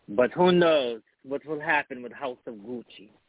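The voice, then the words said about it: Imitates another person's accent. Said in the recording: “That's my Lady Gaga accent. ... You sound like Borat, no.”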